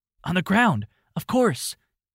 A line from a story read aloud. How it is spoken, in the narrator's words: he exclaimed